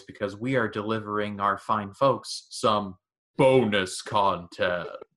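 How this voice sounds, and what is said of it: Dramatic video game announcer voice. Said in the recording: “let me do this in my Mortal Kombat voice”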